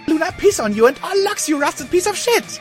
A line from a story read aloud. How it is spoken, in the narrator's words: I screamed at the indifferent, inanimate object